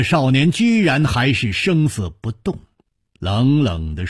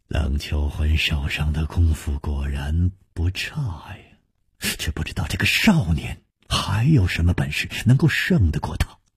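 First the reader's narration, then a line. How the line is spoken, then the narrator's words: Quiet sighing murmur. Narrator (Chinese): 楚留香暗叹说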